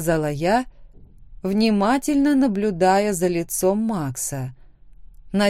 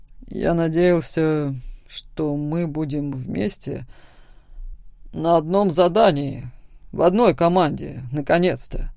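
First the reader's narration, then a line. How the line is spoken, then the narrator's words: Displeased muttering. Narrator (Russian): Недовольно пробормотал Макс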